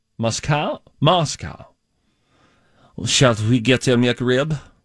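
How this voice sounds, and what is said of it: Attempted Russian accent sounding French. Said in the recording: “That was French. ... I don't know how to do a Russian accent”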